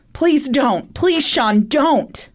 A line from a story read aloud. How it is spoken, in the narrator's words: Shayna's mother, Sandra Bentler, could be heard screaming and saying